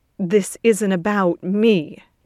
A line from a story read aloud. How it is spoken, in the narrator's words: Ted says tightly